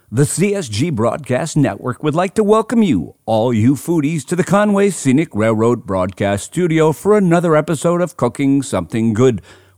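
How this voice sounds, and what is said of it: Deep booming announcer voice. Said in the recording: “using my big boy announcer voice”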